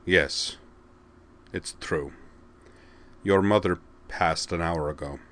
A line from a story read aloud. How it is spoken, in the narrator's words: Rael Zora said quietly